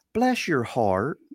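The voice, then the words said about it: Imitated American Southern woman's accent. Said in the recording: “an American southern accent? ... where a southern woman goes?”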